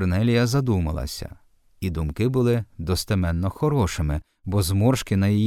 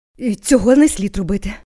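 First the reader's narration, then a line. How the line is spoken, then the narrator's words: Confused groan. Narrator (Ukrainian): простогнала, розгублено наморщивши лоба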